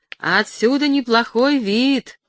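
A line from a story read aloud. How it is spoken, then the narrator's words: Shouting. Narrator (Russian): крикнул он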